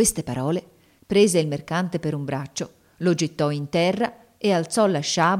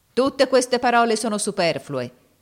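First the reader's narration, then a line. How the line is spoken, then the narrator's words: Shouted. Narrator (Italian): gridò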